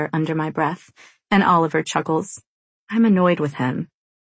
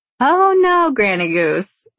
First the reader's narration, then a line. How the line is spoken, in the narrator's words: Roxy says in between holding in laughter